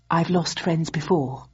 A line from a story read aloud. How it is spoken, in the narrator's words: said Bowden, his voice never wavering from the measured pace of speech he used